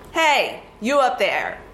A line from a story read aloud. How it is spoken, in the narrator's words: his chief lieutenant shouted